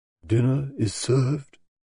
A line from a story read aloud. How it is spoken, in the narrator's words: he murmured